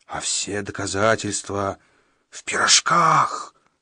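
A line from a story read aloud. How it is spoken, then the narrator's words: Frightening hoarse wheeze. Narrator (Russian): страшным голосом просипел средний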